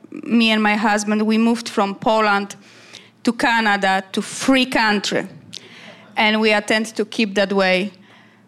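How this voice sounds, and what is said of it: Polish accent. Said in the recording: “you can tell by my accent”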